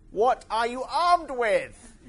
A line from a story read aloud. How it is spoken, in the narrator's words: roared the tank in disbelief